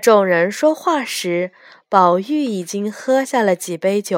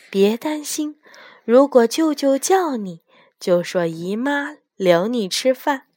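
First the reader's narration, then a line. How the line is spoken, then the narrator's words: Whisper. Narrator (Chinese): 黛玉凑近宝玉，小声地说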